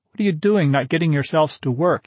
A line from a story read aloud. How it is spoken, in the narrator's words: he shouted